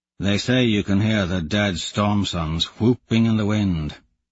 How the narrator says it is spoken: he mutters

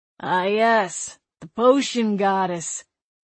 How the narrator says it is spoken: he said, his voice oil slick

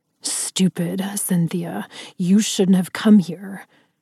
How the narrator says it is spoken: Ryder snarled

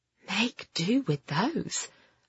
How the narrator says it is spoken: Mavis whispered to Ben

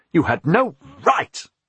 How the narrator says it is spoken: spluttered

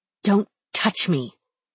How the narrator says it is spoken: I hiss

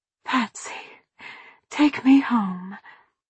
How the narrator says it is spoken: she rasped

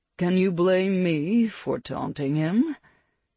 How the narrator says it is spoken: Perry couldn't help but chuckle

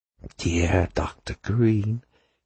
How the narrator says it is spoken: came the silky hiss of Mephisto

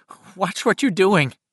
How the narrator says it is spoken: Eddie said in a querulous, nervous voice

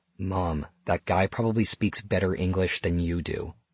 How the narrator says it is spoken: whispered

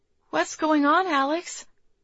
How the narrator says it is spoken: Charlie asked, her voice shaking

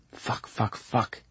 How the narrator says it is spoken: he whispers to himself

